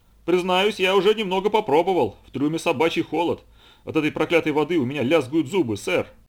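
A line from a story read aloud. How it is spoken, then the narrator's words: Sailor shouting from below. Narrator (Russian): прокричал из трюма матрос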